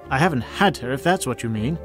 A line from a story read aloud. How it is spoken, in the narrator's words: says Ed